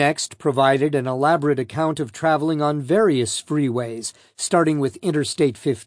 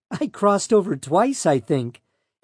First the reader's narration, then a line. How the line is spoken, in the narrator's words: Arias said with a giggle